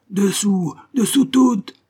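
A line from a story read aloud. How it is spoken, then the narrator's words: Bellowed order. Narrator (French): hurla le second maître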